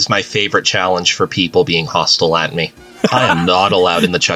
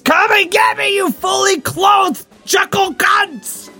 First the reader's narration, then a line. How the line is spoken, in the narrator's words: Buster Manwoom screams